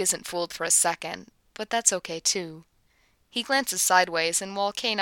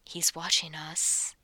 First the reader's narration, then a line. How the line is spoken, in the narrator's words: warns softly, but he's smiling